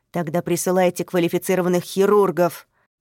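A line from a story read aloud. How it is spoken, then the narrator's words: Barking. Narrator (Russian): Рявкнул полковник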